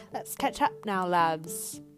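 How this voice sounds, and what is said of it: Put-on British accent, poorly done. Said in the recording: “my British accent ... Sorry, that was horrible”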